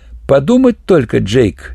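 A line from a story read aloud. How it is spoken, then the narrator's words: Old man giggling. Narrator (Russian): хихикнул старина Джи Энгус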